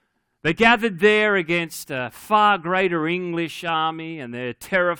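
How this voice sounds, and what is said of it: Usual voice. Nothing is said of it.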